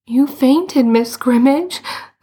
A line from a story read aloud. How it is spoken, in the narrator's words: Alice and Lou said tearfully